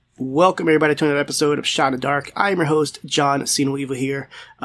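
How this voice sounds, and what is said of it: Sick, under-the-weather voice. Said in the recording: “as you might be able to tell from my voice. I am a little bit under the weather”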